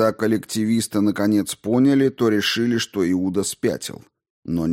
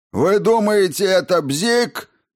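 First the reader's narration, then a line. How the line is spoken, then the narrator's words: Furious yell. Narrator (Russian): яростно заорал Каттер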